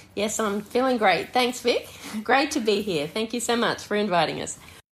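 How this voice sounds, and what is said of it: Australian accent. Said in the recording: “a solid Australian accent”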